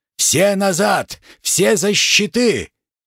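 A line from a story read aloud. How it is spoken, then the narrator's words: Childish yell. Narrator (Russian): По-детски заорал первый раненый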